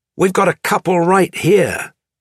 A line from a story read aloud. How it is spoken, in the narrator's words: A person believed to be Reinol shouted